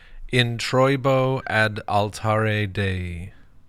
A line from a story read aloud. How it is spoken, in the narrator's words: He intoned